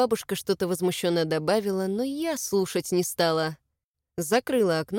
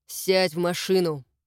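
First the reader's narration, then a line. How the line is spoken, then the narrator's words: Commanding tone. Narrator (Russian): приказным тоном сказал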